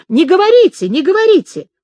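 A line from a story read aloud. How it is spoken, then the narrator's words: Woman shouting from corner. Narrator (Russian): И женщина, именно женщина, где-то в углу, в правой стороне закричала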